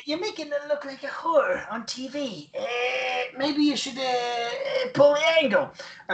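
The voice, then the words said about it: Imitates another person's voice, badly. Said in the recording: “terrible Stu Hart impression... It's a terrible one”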